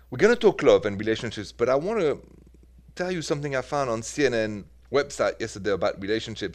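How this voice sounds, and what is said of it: Parisian French accent. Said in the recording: “The accent is from Paris”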